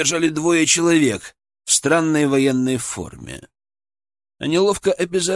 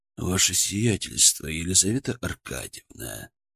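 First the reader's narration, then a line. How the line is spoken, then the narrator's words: Cold steely voice. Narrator (Russian): заговорил он холодным стальным голосом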